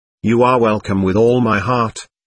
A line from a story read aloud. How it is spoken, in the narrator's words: answered the superior